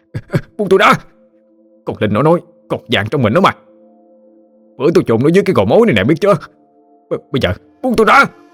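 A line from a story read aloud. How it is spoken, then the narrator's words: Howling. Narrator (Vietnamese): hắn gào lên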